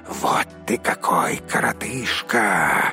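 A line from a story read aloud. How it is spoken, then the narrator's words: Group hissing. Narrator (Russian): зашипели они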